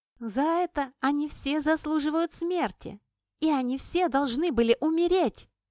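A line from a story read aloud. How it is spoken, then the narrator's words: Girl shouting. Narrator (Russian): кричала девушка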